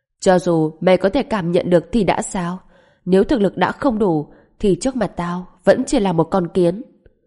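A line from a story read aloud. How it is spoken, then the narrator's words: Loud yell. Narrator (Vietnamese): Lạc Tình Vũ hét lớn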